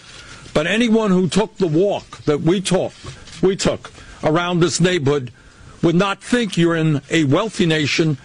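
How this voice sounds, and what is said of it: New York accent, Bernie Sanders. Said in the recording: “a New York accent or a New England accent”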